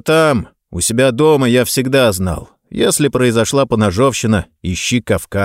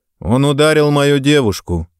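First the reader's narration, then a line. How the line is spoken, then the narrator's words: Calm explanation. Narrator (Russian): спокойно пояснил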